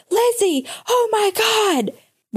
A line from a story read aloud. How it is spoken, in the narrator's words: Noah screaming from the living room